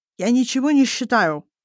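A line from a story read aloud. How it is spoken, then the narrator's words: Lisping around a pill. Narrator (Russian): шепелявит Азамат, рассасывая гигантскую противовоспалительную таблетку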